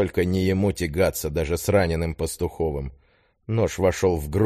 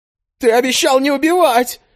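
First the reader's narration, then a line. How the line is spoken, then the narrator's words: Hysterical wail. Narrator (Russian): истерично взвыл шнырь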